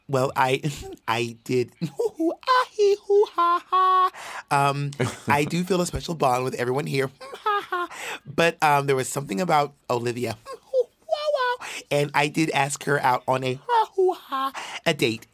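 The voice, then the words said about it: Childlike cartoonish character voice. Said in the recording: “my Utica impression... You made her into a character from the fucking Wiggles”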